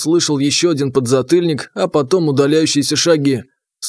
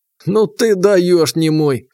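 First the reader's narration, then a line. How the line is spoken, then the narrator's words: Laughing loudly. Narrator (Russian): хохотал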